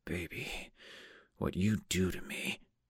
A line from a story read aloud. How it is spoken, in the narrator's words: Jake whispering into my hair